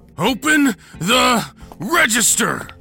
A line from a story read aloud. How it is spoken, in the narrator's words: He screamed, shaking the gun at me with each syllable